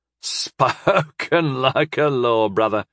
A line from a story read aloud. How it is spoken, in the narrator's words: chuckled the mayor